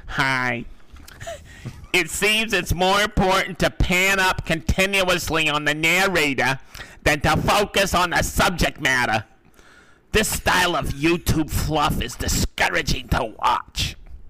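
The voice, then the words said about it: Put-on accent, imagined commenter voice. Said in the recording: “I can't do the accent, but... This is what I think a person like this sounds like.”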